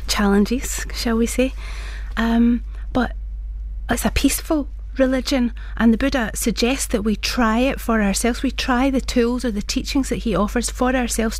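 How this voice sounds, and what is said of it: Glaswegian Scottish accent. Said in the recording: “I was born in Glasgow, as you can hear from my accent”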